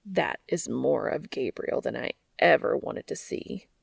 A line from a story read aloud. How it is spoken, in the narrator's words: groans